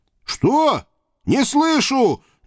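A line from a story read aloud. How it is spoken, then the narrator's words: Deliberately loud shout. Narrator (Russian): нарочито громко прокричал я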